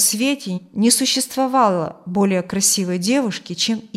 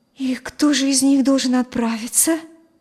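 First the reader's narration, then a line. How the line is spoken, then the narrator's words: Frightened mother asking. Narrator (Russian): испуганно спросила мать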